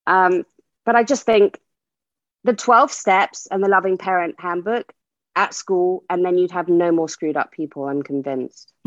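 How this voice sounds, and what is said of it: British accent. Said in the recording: “I love it with a British accent too.”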